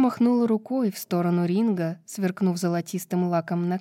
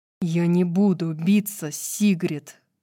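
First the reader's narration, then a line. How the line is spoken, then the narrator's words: Growling. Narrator (Russian): прорычал Итан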